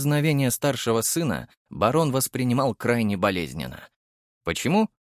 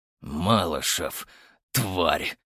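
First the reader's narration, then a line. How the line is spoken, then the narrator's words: Growl. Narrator (Russian): прорычал Архаров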